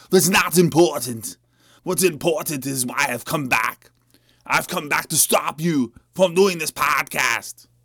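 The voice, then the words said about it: Bad fake German accent. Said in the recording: “Why do I have a shitty German accent?”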